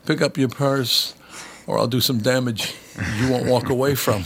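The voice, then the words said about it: Imitates another person's voice. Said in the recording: “I always go with the Christopher Walken.”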